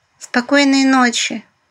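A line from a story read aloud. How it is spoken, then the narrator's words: Smiling purr. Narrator (Russian): Светка улыбнувшись промурлыкала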